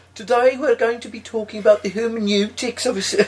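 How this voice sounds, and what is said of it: Put-on Brummie Dudley accent. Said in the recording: “a proper Brummie sort of Dudley accent,... they can't sound intelligent”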